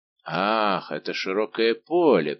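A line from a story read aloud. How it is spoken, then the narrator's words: Drawling. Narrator (Russian): протянул Портос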